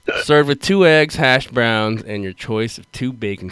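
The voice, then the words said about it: Mixed British and American accent. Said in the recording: “I'm like mixing in British accent with American ... You've got like a crossbreed now ... a accent of part British, part American”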